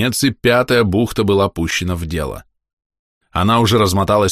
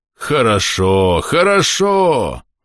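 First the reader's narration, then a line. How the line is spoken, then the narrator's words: Exclamation. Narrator (Russian): воскликнул капитан Халл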